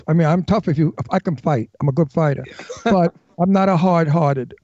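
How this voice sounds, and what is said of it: Brooklyn accent. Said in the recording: “my Brooklyn accent ... the way I speak”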